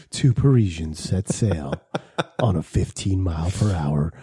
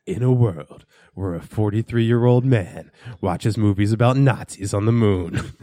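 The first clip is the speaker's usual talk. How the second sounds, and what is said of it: Movie trailer announcer voice. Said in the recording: “You got a good fucking movie trailer voice.”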